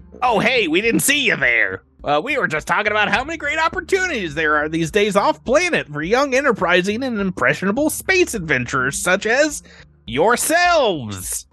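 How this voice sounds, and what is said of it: Performs a character voice. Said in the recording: “my neck impression.”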